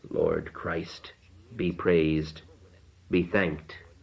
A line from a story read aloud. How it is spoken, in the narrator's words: He murmured